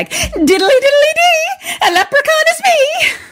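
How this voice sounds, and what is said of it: Put-on leprechaun-style accent. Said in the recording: “I'm going to start scoring your accents. ... That was a seven.”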